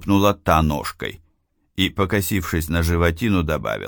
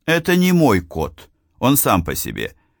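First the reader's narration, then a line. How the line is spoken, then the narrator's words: Plain. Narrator (Russian): ответил я девушке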